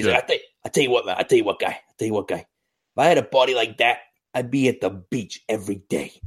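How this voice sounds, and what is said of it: John Gruden impression, Boston mafia-like. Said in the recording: “my horrendous John Gruden impression ... It was like if John Gruden was in the mafia in Boston.”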